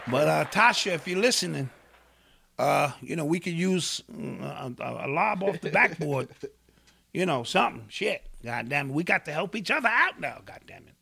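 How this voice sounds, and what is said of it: Imitates another person's voice. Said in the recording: “start talking like her again? That was a really good impression you did”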